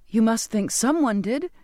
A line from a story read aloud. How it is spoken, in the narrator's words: I cried, wanting to hold him there as much as I wanted answers